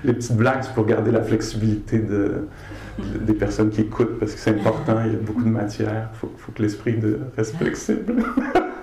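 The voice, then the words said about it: Québécois French accent. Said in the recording (French): “cet accent-là, québécois ... un accent incroyablement magnifique”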